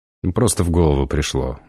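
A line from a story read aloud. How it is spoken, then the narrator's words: Embarrassed grumble. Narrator (Russian): буркнул Антон, чувствуя себя полным идиотом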